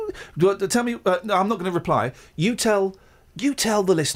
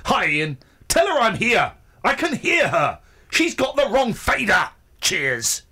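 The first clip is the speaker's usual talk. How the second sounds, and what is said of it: Furious angry reading voice. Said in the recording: “I'm going to say she's furious. I'm going to read it in a furious voice.”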